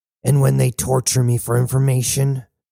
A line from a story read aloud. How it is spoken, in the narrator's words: growled Cybele